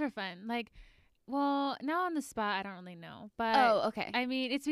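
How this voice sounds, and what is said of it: Usual voice. Nothing is said of it.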